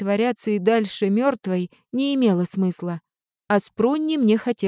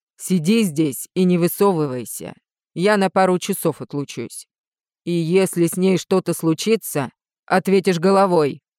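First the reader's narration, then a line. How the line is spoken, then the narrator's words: Angry growl. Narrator (Russian): злобно прорычал Риан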